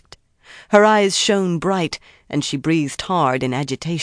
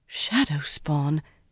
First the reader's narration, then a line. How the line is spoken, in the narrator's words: Marilla murmured in amazement